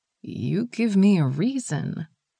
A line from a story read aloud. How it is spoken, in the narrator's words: Gina sang softly